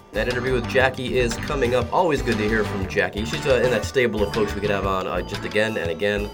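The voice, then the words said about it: Sick, unwell-sounding voice. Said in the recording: “If you can't tell by my voice, I'm poorly”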